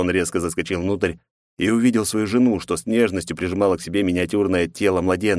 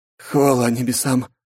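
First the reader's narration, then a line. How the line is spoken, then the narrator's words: Relieved exhale. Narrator (Russian): выдохнул мужчина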